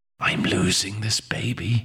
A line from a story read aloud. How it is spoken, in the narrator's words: whispered under her breath